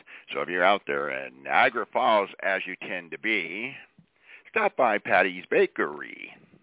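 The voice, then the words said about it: Exaggerated radio announcer voice. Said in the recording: “I'm going to give my radio voice.”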